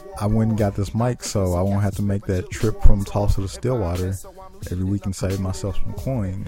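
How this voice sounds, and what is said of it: Slight Southern US drawl. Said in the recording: “I do have a bit of a southern drawl”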